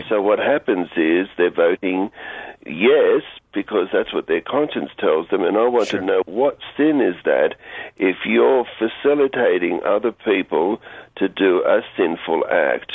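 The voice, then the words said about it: Australian accent. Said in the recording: “giving us a call all the way from Australia ... I love the accent.”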